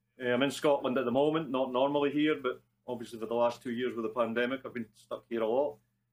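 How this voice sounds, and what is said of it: Scottish accent. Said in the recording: “Probably from the accent, you can gather I'm Scottish.”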